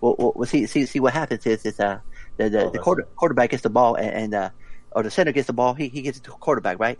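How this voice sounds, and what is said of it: Impression of the Waterboy. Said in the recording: “my best Waterboy impersonation”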